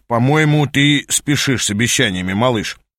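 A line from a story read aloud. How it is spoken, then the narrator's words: Warning interruption. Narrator (Russian): перебил предупреждающим тоном Аас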